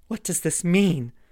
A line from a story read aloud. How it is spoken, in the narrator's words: cried Halward at last